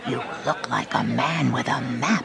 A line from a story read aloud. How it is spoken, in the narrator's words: whispered the man in black